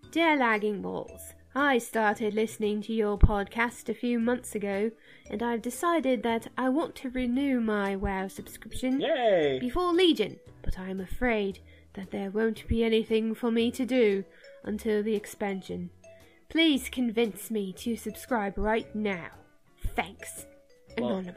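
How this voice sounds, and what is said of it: Reads letter in a put-on accent. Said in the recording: “Should I give this person an accent? ... Yes, absolutely.”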